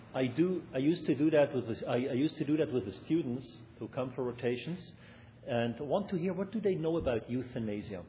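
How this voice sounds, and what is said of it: German accent. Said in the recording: “a very pronounced German accent, which I have anyway”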